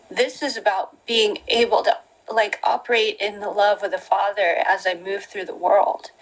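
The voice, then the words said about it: Emotional, choked-up voice. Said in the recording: “Sorry, I'm getting emotional”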